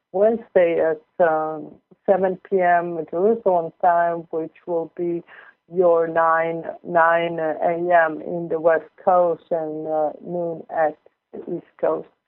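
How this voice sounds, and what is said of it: Foreign accent with Southern US touch. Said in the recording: “as you may understand by my accent, even though that it sounds really sudden from all the years that I spent in South Carolina”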